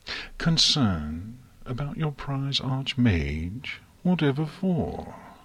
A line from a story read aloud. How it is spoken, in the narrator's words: Luna asked in a slightly more sly tone of voice than Celestia was entirely pleased with